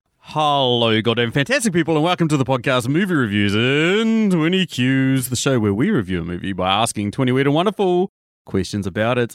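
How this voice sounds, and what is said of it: Very excited, energetic delivery. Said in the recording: “as you can tell by my voice, I'm overly fucking excited”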